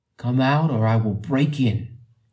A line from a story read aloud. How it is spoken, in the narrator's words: he yelled at the top of his voice